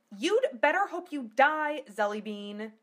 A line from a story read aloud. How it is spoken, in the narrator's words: she yelled